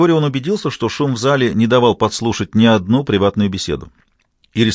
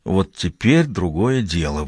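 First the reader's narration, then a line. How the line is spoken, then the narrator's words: Breathed out. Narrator (Russian): выдохнула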